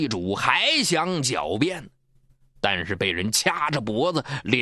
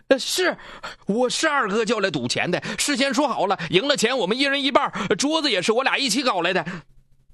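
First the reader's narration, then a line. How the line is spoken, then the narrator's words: Hurried, anxious. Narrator (Chinese): 老纪知道处境不好，急忙说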